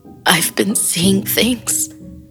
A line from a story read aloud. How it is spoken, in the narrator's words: she sobbed